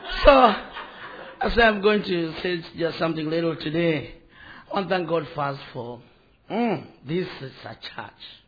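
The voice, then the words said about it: Non-American accented English. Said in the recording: “sometimes people from America, they do say we have accent. And we do say they have accent. I don't know who have accent. So, you have accent.”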